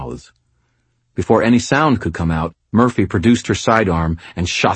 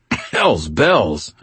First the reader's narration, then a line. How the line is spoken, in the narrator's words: choked as my adrenaline spiked after the fact